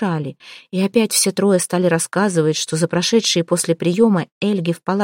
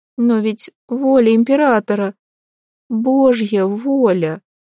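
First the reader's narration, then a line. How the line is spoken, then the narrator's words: Sobbing. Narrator (Russian): всхлипнула Елена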